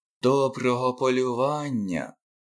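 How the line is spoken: Whispered. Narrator (Ukrainian): прошепотів нарешті Коа, як все звичайно він робив

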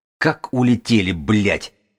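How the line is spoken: Angry growl. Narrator (Russian): прорычал в сердцах

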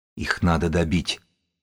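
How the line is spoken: Whispering. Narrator (Russian): прошептала Сибилла в здоровое ухо книжника

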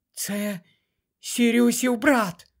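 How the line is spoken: Whispered. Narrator (Ukrainian): прошепотіла вона

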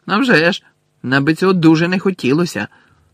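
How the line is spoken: Angry shout. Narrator (Ukrainian): зі злістю крикнув Рон

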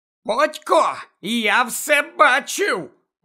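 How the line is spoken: Indignant. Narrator (Ukrainian): обурено сказав Півз Гаррі

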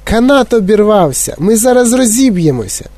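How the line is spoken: Screamed. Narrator (Ukrainian): А пані Тіві закричала

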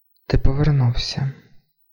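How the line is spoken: Quiet breathless speech. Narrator (Ukrainian): тихо, майже не дихаючи, мовила Джоан

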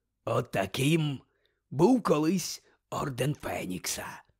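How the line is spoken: Growled. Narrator (Ukrainian): прогарчав Муді

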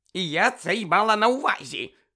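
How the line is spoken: Sharp, flustered old woman. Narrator (Ukrainian): різко виправилася місіс Фік, а її зморшкуваті щоки вкрилися рожевими плямами

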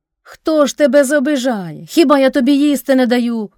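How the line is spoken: Father's shout. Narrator (Ukrainian): крикнув батько

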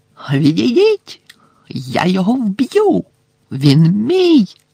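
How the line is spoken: Shrieking. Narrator (Ukrainian): заверещав Волдеморт

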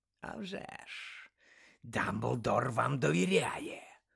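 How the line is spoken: Growled reply. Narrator (Ukrainian): прогарчав у відповідь Муді

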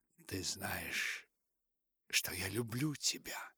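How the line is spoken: Whisper. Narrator (Russian): прошептала

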